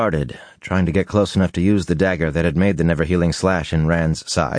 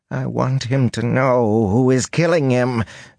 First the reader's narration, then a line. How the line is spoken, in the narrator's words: Fane whined petulantly